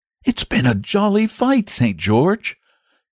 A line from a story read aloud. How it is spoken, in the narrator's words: he said with a sigh